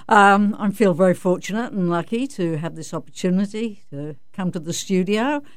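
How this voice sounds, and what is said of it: London-Australian transatlantic twang. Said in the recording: “that little twang there she's from London, but she spent a lot of time in Australia ... Where does that twang come from? ... It's definitely a transatlantic accent.”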